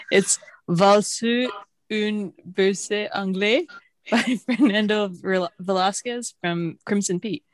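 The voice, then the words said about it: Attempted French accent. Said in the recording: “I'm going to try my best French accent.”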